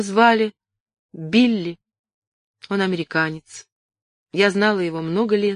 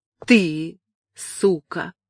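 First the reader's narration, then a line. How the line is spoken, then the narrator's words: Through gritted teeth. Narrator (Russian): процедил сквозь зубы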